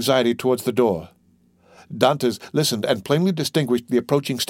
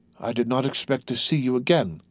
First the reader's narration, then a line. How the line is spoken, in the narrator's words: said he, feebly, to Dantès